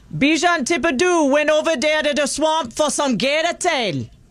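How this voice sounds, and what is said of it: Put-on Cajun accent, somewhat Jamaican. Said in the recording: “the Cajun accent ... I know, it almost sounds Jamaican.”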